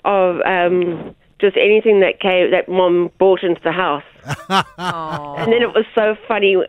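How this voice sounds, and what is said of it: South African accent. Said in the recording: “I can tell there's an accent there ... South Africa”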